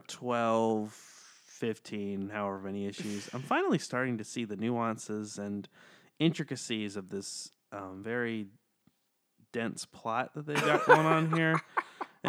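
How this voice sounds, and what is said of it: Mock public-radio announcer voice. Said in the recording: “I put on my NPR voice for this very review.”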